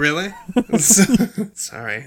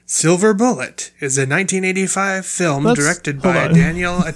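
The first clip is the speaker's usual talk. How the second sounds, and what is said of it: Irritated-sounding announcer voice. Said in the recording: “You sound so irritated... I was trying to do an announcer voice... I didn't mean to sound pissed off.”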